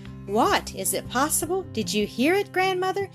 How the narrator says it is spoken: exclaimed Brigida

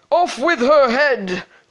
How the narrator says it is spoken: the prince roared back

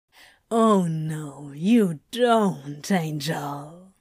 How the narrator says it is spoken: Crowley said with a grin and a low growl

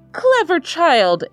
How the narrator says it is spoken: exclaimed his aunt

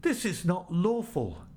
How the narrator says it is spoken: The people cried out

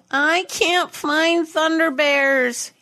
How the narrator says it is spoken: whined

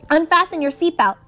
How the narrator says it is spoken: I yelled to Annabeth

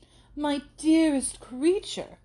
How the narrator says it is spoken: cried, to whom the duty of friendship immediately called her

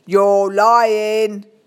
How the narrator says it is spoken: He shouted at the three ink hat goblins

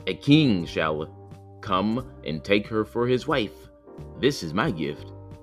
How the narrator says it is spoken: said the third

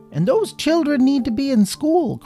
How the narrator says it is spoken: cried the headmaster

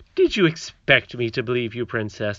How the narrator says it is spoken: asked the nurse coldly

